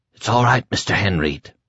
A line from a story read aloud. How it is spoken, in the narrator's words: he whispered